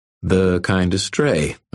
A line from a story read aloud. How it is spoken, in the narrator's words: I said smoothly